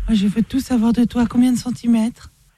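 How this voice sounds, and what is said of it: Man putting on a woman's voice. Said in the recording (French): “quand il fait sa voix de nana ... Je travestis ma voix”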